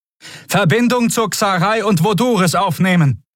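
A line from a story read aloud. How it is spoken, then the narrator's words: Shouted over noise. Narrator (German): rief Kvudal dem Kommunikationsoffizier, einem blutjungen Skria, über den Lärm zu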